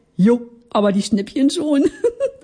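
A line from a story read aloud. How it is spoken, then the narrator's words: Giggled. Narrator (German): kicherte ich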